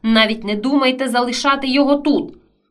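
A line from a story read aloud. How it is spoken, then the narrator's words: Angry grumble. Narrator (Ukrainian): сердито буркнула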